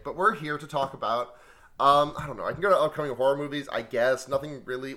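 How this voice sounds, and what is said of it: Hoarse, worn-out voice. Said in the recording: “My voice is kind of shot ... I'm still a little bit recovering from being sick.”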